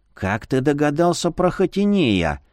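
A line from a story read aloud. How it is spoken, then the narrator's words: Very quiet whisper. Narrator (Russian): шепнул полумесяц так тихо, будто его могли услышать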